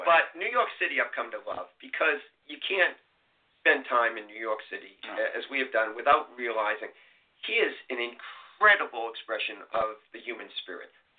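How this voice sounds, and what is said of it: Boston accent. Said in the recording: “I'm a kid from Boston, as you can tell from my accent.”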